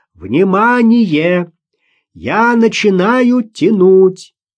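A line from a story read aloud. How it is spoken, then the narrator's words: Shouted. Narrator (Russian): Ростовцев прокричал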